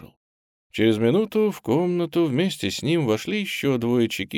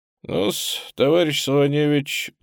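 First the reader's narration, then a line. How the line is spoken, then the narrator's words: Mocking, smiling. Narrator (Russian): насмешливо улыбаясь, начал толстый латыш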